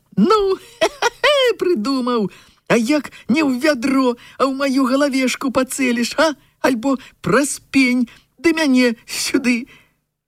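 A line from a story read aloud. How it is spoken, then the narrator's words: Laughing loudly while running. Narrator (Belarusian): Лёнік бег, рагатаў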